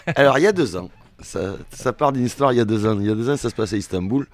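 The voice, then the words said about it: British accent speaking French. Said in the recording (French): “mon accent britannique”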